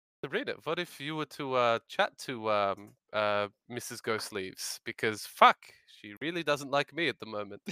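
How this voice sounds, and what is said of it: Character voice with Scottish accent. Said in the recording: “I have a very consistent voice for this character the entire time. ... One of those Scotland wandering accents.”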